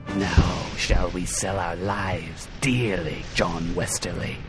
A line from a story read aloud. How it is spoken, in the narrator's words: said Akpetus Marn in the peculiar guttural hiss of the Menarian race